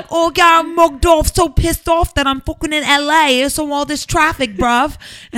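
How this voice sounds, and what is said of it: Put-on Essex English accent. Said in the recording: “the Essex and stuff ... You should have that accent. Like, I feel like you should have that accent. ... I have an accent now ... are you speaking English?”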